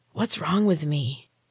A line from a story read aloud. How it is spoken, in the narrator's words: My voice came out as a raspy whisper